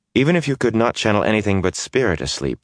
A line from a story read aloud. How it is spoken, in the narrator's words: Moraine said coolly